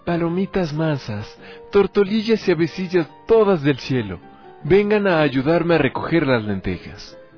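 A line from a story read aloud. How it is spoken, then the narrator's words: Girl exclaiming. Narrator (Spanish): La muchachita exclamó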